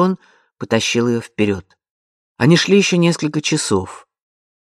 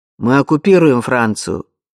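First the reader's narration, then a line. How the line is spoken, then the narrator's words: Rude interruption. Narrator (Russian): грубо перебил ее солдат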